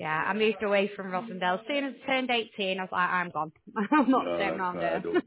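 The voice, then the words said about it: Lancashire accent mixed with Manchester. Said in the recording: “my Lancashire accent's still there ... I can detect it, yeah ... a lot of people think I'm from Yorkshire ... I've got my Lancashire accent, I think it's like a bit of a mix of both ... it sounds like Wigan, that round that area”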